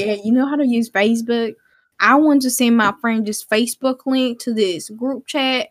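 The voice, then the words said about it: Put-on Southern American accent. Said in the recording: “I'm going to do her accent ... She actually has a Southern accent”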